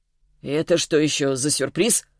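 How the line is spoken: Snorting big man. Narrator (Russian): хмыкнул здоровяк

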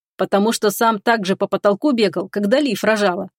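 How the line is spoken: Amused snort. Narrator (Russian): хмыкнул Ричард

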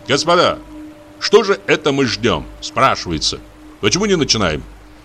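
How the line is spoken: Loud. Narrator (Russian): Он сказал громко

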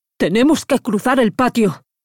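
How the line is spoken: Shouting to be heard. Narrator (Spanish): gritó Mijail para hacerse oír

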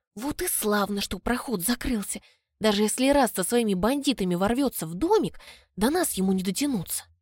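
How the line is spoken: Whispering. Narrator (Russian): зашептала

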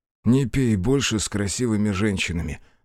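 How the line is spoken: Sighing. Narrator (Russian): вздохнул Биру

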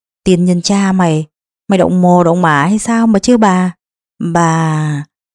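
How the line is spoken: Old woman stammering. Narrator (Vietnamese): Bà ... miệng lắp bắp

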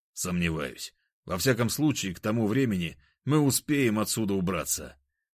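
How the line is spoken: Plain. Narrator (Russian): ответил я

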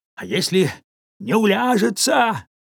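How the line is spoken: Shouted reply. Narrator (Russian): прокричал в ответ дядюшка Тоби

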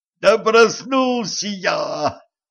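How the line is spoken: Howled. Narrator (Russian): взвыл кучер

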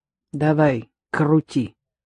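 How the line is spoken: Dry. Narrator (Russian): сухо отзывалась она

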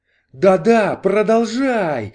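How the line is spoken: Ecstatic exclamation. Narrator (Russian): в экстазе воскликнул Кордл

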